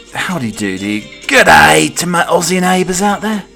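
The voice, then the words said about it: Put-on Australian accent. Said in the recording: “I don't think I could keep up the Aussie accent for an entire show.”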